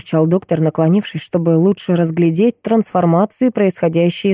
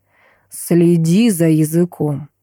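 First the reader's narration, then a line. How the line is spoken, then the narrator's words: Growled. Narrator (Russian): прорычал он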